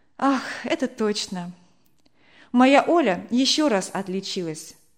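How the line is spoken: Sighing. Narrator (Russian): вздохнула Вера

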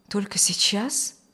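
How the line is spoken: Frightened young man asking. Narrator (Russian): испуганно спросил молодой врач

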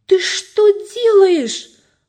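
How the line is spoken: Indignant shout. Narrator (Russian): возмущенно закричал Джефф

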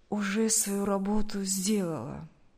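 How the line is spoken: Tired speech. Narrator (Russian): Поняв насмешку охранника, устало сказал Сергей

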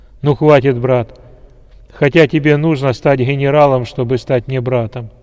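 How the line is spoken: General speaking loudly. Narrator (Russian): громко сказал генерал

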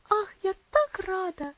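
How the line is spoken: Excited child's exclamation. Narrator (Russian): воскликнула маленькая девочка

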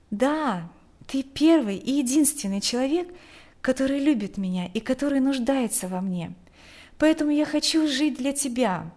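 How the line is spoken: Calm. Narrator (Russian): спокойно сказала

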